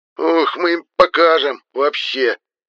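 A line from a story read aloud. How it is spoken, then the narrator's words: Barking. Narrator (Russian): рявкнул мой земляк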